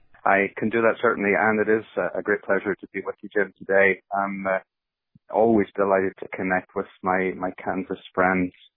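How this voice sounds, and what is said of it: Northern Irish accent. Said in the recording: “as people might detect from the accent goes back a little further. It actually goes across the pond to Northern Ireland”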